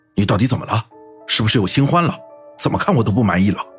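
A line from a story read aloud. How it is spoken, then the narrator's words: Slightly angry. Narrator (Chinese): 侯刚有点怒了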